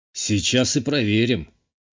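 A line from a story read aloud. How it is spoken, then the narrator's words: Muttered smirk. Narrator (Russian): хмыкнул себе под нос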